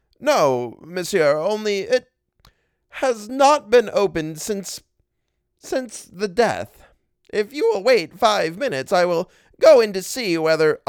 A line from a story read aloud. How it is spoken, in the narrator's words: He stammered